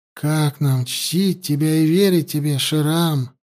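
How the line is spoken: Sigh. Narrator (Russian): Вздохнул Арзабану

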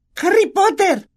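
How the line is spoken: Shriek. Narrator (Spanish): chilló

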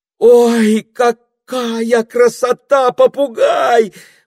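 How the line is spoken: Exclaiming. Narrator (Russian): воскликнула Пенелопа

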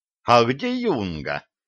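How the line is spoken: Plain. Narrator (Russian): спросил профессор

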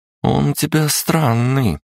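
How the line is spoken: Drawl. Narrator (Russian): протянула Кристина

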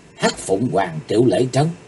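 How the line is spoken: Soft startled cry. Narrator (Vietnamese): kinh dị, bất giác Chí Tồn kêu khẽ

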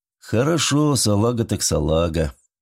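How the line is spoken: Completely calm. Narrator (Russian): абсолютно спокойно ответил Уэст

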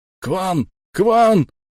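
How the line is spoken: Yelling. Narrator (Russian): орал крюкомет

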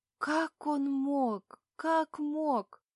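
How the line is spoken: Sobbing whisper. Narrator (Russian): То и дело всхлипывая шепчет

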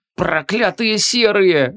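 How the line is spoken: Hoarse rasp. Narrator (Russian): захрипел юноша

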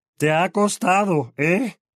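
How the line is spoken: Roaring. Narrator (Spanish): rugió Vernon Dursley

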